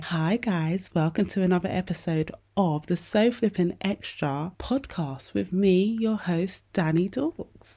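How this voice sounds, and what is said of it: Quiet, hushed indoor voice. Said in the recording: “i'm putting on my inside voice because caden's sleeping and don't want to wake him up”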